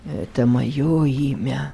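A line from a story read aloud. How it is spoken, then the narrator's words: Weak voice. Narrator (Russian): слабым голосом произнес незнакомец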